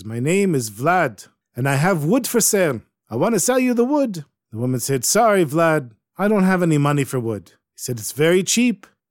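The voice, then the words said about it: Ukrainian accent. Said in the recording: “He speaks in Ukrainian. He speaks with a real Ukrainian accent.”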